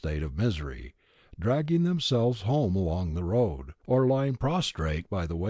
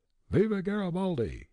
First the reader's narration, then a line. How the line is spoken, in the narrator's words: cried, in mock homage